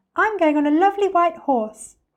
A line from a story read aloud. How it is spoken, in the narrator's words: cried another